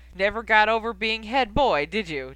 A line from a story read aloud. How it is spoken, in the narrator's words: Charlie laughed